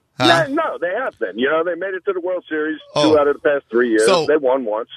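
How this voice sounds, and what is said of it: New York accent. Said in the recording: “You're a Yankee fan, though, aren't you? ... I don't know if the accent gave it away.”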